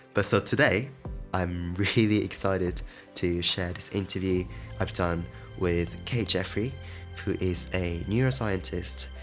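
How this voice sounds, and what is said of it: Sick, congested-sounding voice. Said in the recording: “I'm so sorry for this voice. I've got a cold ... You might find it a bit different from my usual voice”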